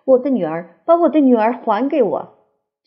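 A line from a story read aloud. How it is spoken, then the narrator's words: Wild, loud shouting. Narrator (Chinese): 从房子的这一头到那一头，都可以听见他们念戏里的台词的狂叫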